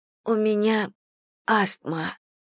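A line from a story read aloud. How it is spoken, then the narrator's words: Hoarse voice. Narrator (Russian): хрипло произнесла она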